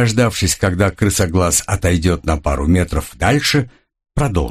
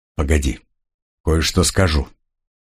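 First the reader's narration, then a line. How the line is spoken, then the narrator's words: Quiet. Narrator (Russian): тихонько сказал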